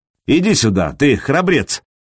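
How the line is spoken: Mocking. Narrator (Russian): насмешливо произнес Сергей

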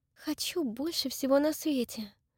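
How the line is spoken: Whisper. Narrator (Russian): прошептала Дакота

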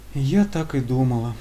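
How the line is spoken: Weary exhale. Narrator (Russian): незнакомка устало выдохнула

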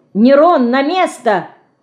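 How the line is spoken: Shout. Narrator (Russian): крикнула Динка

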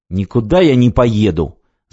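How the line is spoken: Angry. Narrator (Russian): зло сказал

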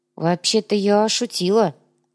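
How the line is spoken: Confused, faltering. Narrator (Russian): растерянно проронила Инга

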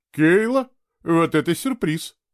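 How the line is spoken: Calm. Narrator (Russian): спокойно сказала она

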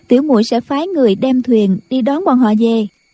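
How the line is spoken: Smiling. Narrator (Vietnamese): Doanh Doanh mỉm cười nói

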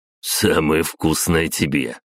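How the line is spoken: Short laugh. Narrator (Russian): хохотнул Петя

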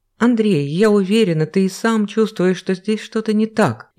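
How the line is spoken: Almost pleading. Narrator (Russian): едва не взмолилась ранняя гостья

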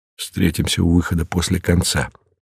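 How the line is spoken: Whisper. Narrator (Russian): прошептал Мартин

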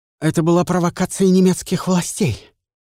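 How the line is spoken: Exhaled. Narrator (Russian): выдохнул Эмиль

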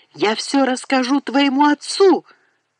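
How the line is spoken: Hurried shout. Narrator (Russian): успела выкрикнуть Лу

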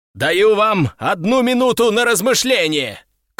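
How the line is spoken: Shout. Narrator (Russian): крикнул я

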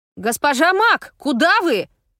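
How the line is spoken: Foolish yelling. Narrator (Russian): Совершенно по-идиотски завопил кто-то из рабочих

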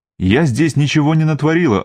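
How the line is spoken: Snapped. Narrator (Russian): огрызнулась

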